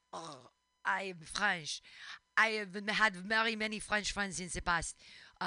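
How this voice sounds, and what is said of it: Put-on French accent. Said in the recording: “Do you like how I used your French accent? ... my favorite part about the French accent”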